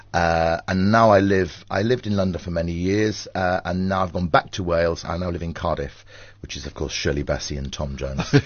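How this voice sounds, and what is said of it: Slight Welsh accent. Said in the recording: “There's the little Welsh accent lurking there. It is real Welsh, isn't it?”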